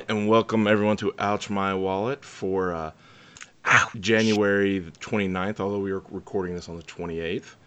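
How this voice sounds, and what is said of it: Slightly raspy voice. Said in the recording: “I'm coming down with a cold ... His voice is a little bit raspy.”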